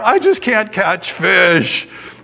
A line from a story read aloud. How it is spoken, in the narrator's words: she moaned